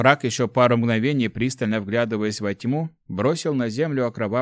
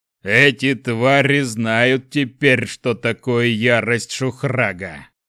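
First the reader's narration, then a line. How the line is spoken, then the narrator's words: Thundering, less menacing. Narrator (Russian): Прогремел он, но голос его уже звучал не так грозно, как во время боя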